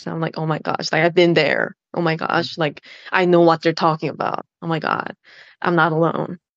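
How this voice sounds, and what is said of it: American-sounding accent. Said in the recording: “You sound so American when you say, oh my God. ... Country girl from Korea sounding all American.”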